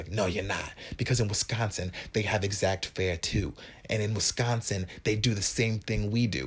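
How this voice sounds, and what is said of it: Bad put-on New York accent. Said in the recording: “That was my bad New York accent.”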